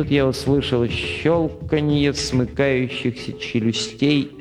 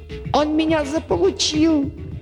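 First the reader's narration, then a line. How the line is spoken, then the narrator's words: Shrieking. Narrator (Russian): взвизгнул Дерг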